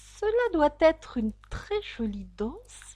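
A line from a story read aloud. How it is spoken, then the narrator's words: Timid. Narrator (French): dit timidement Alice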